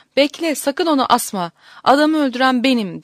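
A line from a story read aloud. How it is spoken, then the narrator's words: Cried out. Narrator (Turkish): diye haykırmış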